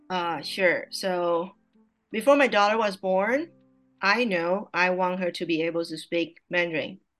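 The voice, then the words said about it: Mandarin Chinese accent in English. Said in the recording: “I'm a native speaker of Mandarin Chinese ... my English level is not that good ... she correct my accent, my pronunciation all the time”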